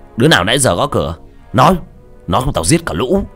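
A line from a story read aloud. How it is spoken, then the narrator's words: Shouting. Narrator (Vietnamese): hắn quát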